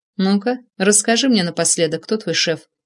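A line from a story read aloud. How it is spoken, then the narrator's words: Quiet question. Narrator (Russian): тихо спросил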